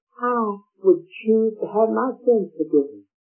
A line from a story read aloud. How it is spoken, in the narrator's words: one man, he feebly said